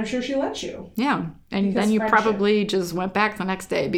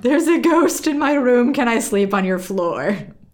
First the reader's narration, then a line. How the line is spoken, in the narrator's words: I promptly sobbed